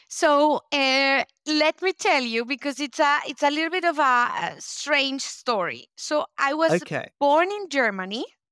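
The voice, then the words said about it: Spanish-speaker accent in English. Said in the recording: “we can tell from the Spanish, you know, the accent”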